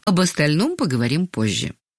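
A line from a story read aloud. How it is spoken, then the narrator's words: Calm. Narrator (Russian): спокойно сказала Ангелина Сергеевна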